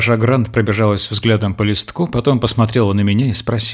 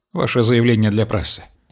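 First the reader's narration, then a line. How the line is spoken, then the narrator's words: Calm announcement. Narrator (Russian): спокойно объявил я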